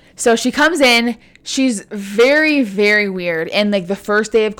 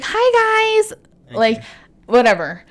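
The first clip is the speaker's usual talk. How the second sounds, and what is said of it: High-pitched, doll-like girly voice. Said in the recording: “Her voice is so high-pitched, very doll-like ... she just had this really high-pitched voice ... can you do an impression of her?”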